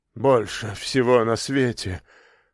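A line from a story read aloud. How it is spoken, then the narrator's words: Mumbling. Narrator (Russian): пробормотал он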